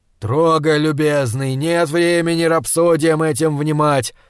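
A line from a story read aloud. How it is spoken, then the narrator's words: Angry bark. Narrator (Russian): злобно рявкнул Познанский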